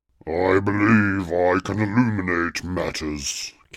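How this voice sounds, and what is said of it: Deep character voice. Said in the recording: “came a deep voice from behind her”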